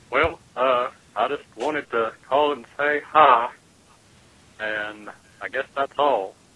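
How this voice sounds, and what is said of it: Good Hank Hill cartoon voice impression. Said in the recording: “doing his Hank Hill impression ... a really good impression”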